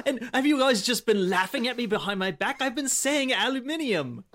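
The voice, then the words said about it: British accent. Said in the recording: “I am jealous of your British accent.”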